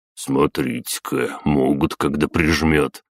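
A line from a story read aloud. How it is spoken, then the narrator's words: Inner amused snort. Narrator (Russian): хмыкнул мысленно Батуми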